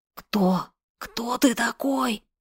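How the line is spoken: Hoarse wheeze. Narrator (Russian): прохрипел стрелявший

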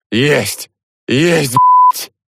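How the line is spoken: Barked shout. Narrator (Russian): гаркнул я

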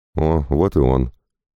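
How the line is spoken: Grumbled, ready to argue. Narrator (Russian): буркнул Пападакис, выпитив подбородок и готовясь к очередному раунду выяснения отношений

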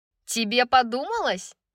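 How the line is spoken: Snide mocking imitation. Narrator (Russian): ехидно спросила Сабина, передразнивая голос Брайс

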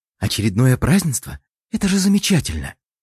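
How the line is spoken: Joyful murmur, girl. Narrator (Russian): радостно бормотала девушка

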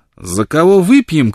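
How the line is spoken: Shouting. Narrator (Russian): крикнула Бланш, все еще сидевшая у плиты

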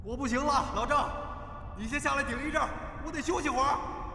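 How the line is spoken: Shout from below. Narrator (Chinese): 坑底 传来了一声嚷嚷

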